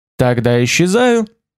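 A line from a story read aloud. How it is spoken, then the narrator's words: Cheerful reply. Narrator (Russian): ответил бодро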